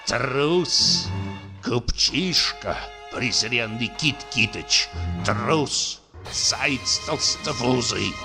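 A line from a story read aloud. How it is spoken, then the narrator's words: Indignant muttering. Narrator (Russian): бормотал в негодовании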